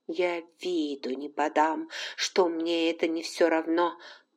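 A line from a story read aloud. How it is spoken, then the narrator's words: Quiet vow to herself. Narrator (Russian): поклялась она тихо себе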